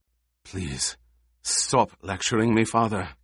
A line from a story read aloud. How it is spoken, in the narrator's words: Kynes whispered